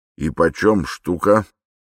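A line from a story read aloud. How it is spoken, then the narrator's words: Plain. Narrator (Russian): спросил он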